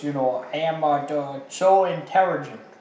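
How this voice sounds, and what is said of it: Exaggerated mock Chinese accent. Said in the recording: “gave him like a racist Chinese accent ... He did the R, you know. ... That is like a South Park Asian impression.”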